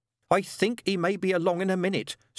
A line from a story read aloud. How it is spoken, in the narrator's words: said Pig Bog urgently